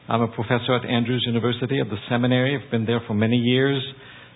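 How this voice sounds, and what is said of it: French-Canadian accent. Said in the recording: “get used to my accent ... The French part. So that's my accent. I'm a French-Canadian”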